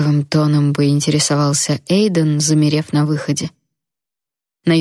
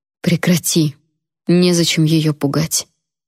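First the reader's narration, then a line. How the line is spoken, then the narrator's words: Quiet demand. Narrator (Russian): тихо потребовала я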